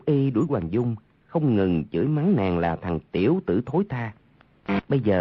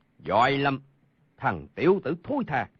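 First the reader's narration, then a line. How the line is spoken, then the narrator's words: Loud roar. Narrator (Vietnamese): gầm lớn một tiếng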